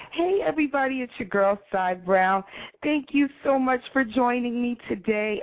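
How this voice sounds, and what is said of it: Emotional, choked-up voice. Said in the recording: “all choked up”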